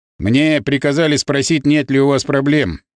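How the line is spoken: Dry. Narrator (Russian): сухо спросил наш напарник

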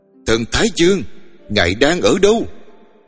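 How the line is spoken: Lonely echoing scream. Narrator (Vietnamese): Tiếng thét của tôi lạc lõng dội vào giữa sa mạc mênh mông rồi tắt lịm

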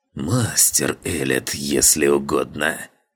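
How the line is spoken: Hissing old man. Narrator (Russian): шипением в голосе произнес старик

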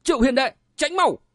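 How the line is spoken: Urgent cry. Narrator (Vietnamese): Đặng Minh vội kêu lên

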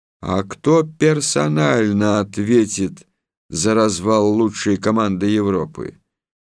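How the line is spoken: Stern, menacing. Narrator (Russian): он грозно сказал

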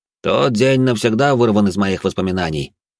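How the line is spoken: Added, then laughed. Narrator (Russian): добавил он и засмеялся

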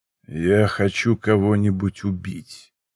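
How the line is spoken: Dull, muffled. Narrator (Russian): произнес он глухо

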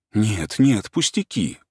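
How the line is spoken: Embarrassed mumble. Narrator (Russian): пробормотал Турбин густо краснея

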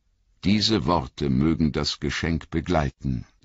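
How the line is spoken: Plain. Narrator (German): sagte sie

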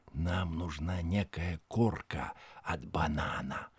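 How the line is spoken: Whisper. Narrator (Russian): Синдбад шепнул другу

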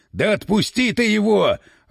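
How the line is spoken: Yelling. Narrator (Russian): орал Гирин

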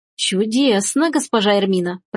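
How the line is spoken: Cat purring. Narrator (Russian): промурлыкал кот

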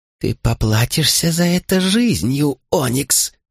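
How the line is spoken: Hissed. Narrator (Russian): Успела прошипеть она

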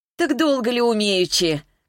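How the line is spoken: Laughing. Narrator (Russian): Клава рассмеялась

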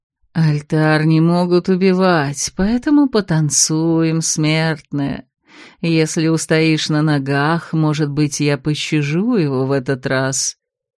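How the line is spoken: Drawn-out hateful voice. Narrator (Russian): протянул ненавистный голос

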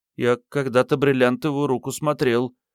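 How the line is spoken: Timid child's reply. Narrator (Russian): робко откликнулся мальчик

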